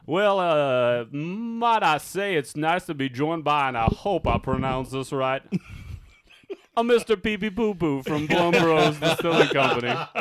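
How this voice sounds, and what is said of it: Imitation of a Kentucky businessman. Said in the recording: “the owner of the Kentucky distributor ... I'm not going to do his voice. Well, I'll do his voice a little.”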